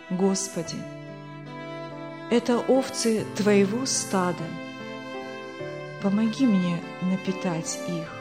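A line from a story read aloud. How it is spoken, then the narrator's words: Quiet but clear. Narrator (Russian): произнес тихо, но внятно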